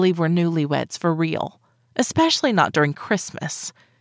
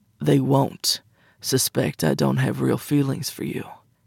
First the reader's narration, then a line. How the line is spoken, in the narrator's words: he said, his voice deeper than before, giving me the sense he was losing patience